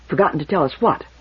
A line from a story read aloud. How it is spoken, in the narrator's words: put in Toran quickly